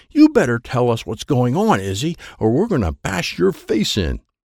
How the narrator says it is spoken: Mary is screaming at Izzy

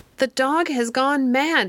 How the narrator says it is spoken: screamed Miss Bessie

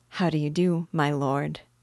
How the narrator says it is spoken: said, in a gentle tone

